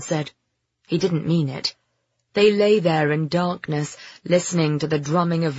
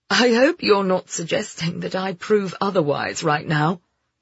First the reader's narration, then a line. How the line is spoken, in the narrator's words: Ben said with an uneasy laugh